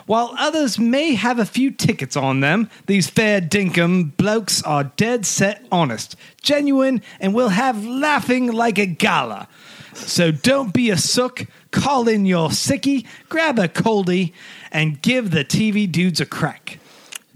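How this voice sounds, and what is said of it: Put-on Australian-English accent. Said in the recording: “I was assuming it was Australian, but you kind of went between an Australian and English accent.”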